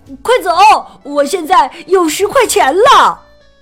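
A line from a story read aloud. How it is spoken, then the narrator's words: Excited shout. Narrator (Chinese): 富兰克林激动的大喊起来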